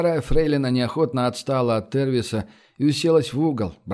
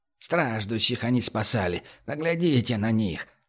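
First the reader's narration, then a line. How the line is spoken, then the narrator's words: Quiet muttering old woman. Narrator (Russian): тихо ворчала себе под нос старушка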